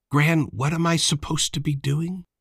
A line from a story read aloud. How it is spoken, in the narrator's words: whispered